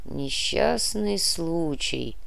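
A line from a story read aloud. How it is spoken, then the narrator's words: Thoughtful mutter. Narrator (Russian): задумчиво пробормотал Тимошенко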